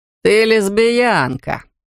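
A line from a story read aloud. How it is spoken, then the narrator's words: Loud laughing. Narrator (Russian): он захохотал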